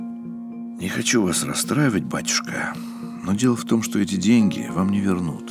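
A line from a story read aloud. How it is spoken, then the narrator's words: Sighing. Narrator (Russian): вздохнул Устинов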